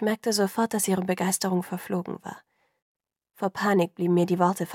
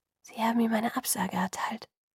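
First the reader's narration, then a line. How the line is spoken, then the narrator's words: Quiet. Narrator (German): sagte sie leise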